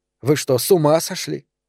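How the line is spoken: Irritated. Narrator (Russian): раздраженно сказала она Романа

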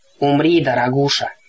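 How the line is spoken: Hoarse. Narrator (Russian): хрипло произнесла мисс Дотс

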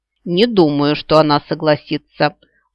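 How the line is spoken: Growling. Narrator (Russian): прорычал Себастьян

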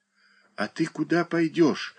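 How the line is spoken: Quiet question, small boy. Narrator (Russian): тихо спросил мальчуган

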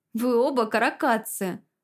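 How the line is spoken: Laughing. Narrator (Russian): засмеялась я

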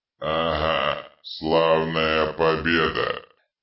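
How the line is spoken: Grumbling. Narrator (Russian): пробурчал Детрит, с ненавистью

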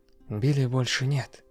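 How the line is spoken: Gentle explanation. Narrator (Russian): мягко объяснил ведьмак

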